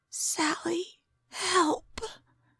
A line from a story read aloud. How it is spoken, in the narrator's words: her roommate whispered